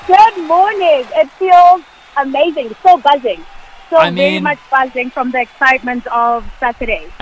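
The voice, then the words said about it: Hoarse, nearly lost voice. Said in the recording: “I've lost my voice.”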